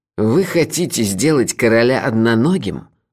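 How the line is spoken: Angry laugh. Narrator (Russian): зло рассмеялся Карл

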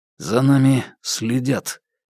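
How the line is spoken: Quiet, clipped. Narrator (Russian): негромко, отрывисто произнес Гарпе

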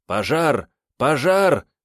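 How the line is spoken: Shouting nearby. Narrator (Russian): закричали неподалеку

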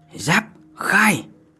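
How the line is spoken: Shouted command. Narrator (Vietnamese): quát

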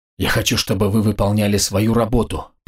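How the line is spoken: Hissing armorer. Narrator (Russian): прошипел оружейник

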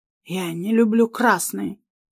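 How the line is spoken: Breathed into her face. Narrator (Russian): выдохнул ей в лицо

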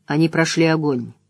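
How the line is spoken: Even voice. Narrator (Russian): ровным голосом произнес Лан

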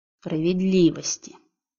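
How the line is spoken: Hissed through teeth. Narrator (Russian): Сквозь зубы прошипел до невозможности изменившийся диамант

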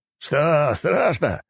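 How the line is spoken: Laughing archmage. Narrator (Russian): рассмеялся архимаг

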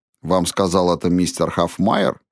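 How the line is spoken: Calm question. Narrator (Russian): спокойно спросил дьякон

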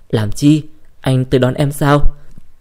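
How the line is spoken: Sweet silky laugh. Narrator (Vietnamese): Cô bật cười ngọt ngào như tơ

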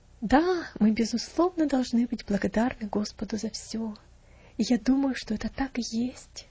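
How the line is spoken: Wife speaking softly. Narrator (Russian): тихонько проговорила жена

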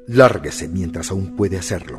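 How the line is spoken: Muttered. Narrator (Spanish): masculló

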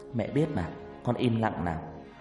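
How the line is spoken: Soft smiling voice. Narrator (Vietnamese): Hằng chỉ mỉm cười khẽ nói

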